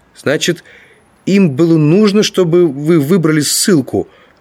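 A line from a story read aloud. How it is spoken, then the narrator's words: Exclamation. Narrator (Russian): воскликнул Гааль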